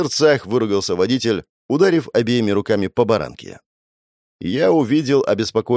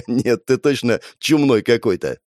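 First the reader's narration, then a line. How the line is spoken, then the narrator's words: Laughing. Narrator (Russian): рассмеялся Родион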